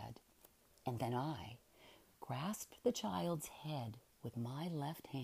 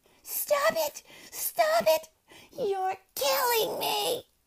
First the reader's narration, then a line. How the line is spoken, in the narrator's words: she shrieked terrifyingly, hysterically